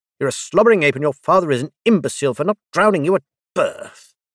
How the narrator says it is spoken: Dazel snarled

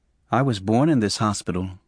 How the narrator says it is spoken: he said quietly

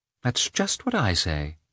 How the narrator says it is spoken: she answered, purposely ignoring the sarcasm of his tone

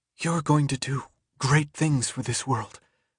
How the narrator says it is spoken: she whispered, somehow keeping herself under control

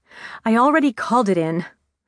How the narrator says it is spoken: snapped

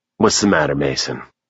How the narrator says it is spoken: Rig murmured

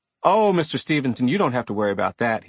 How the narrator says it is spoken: he quickly replied

